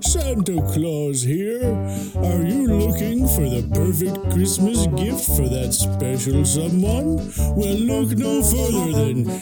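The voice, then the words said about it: Santa Claus character voice. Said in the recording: “my Santa Claus impression”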